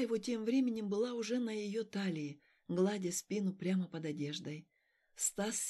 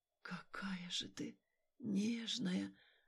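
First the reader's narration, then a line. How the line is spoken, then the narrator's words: Intimate whisper. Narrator (Russian): шептал он у ее губ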